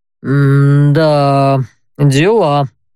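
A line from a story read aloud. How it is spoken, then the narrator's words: Drawn-out drawl. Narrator (Russian): протянул Барт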